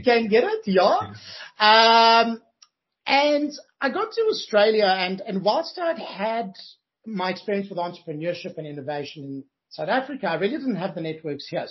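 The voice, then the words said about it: South African accent. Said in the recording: “I'm originally from Johannesburg, South Africa. If you can hear my accent... Can get the accent, definitely.”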